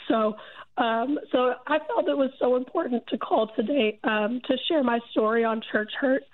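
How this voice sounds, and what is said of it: Rough voice from a cold. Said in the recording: “My voice sounds so terrible. Getting over a cold.”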